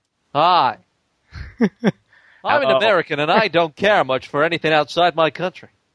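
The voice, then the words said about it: Weak put-on American accent. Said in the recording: “Give us your best American voices ... It wasn't much of an accent, though.”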